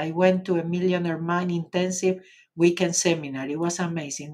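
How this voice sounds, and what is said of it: Argentinian accent in English. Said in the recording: “you can stay and learn English with an Argentinian accent”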